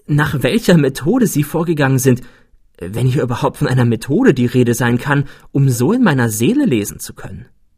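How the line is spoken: Exclaiming. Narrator (German): rief ich aus

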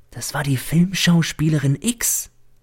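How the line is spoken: Servant's whisper. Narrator (German): flüstert mir der Diener zu

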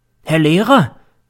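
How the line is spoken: Sudden call. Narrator (German): ruft plötzlich der M

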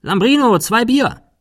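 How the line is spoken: Calling inside. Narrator (German): Cecil rief nach innen

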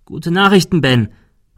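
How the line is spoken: Called out. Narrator (German): rief er

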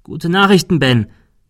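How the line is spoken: Calling out. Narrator (German): rief

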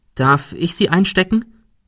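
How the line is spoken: Plain question. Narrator (German): fragte Ben

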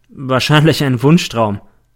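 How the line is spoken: Plain. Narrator (German): sagte ich

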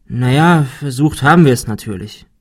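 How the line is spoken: Sighing. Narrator (German): seufzte Ben

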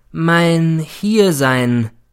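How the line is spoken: Slow, emphatic. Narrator (German): begann er wieder langsam und betont

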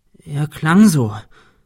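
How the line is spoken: Stammering. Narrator (German): stammelte sie

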